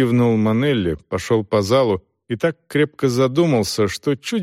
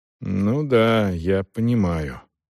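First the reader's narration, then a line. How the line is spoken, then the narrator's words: Muttered. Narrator (Russian): пробормотал Селдон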